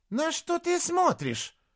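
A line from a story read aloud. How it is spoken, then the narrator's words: Shrill squeal. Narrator (Russian): взвизгнула она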